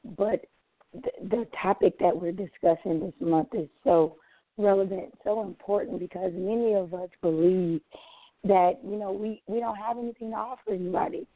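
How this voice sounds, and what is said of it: Slightly hoarse voice. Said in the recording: “my voice is slightly hoarse from the service that we had last night”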